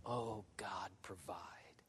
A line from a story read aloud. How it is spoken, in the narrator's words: Abraham was praying